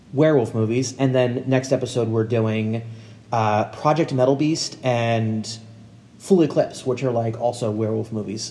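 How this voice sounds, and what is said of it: Eastern Pennsylvania accent. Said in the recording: “my PA, Eastern PA accent's terrible”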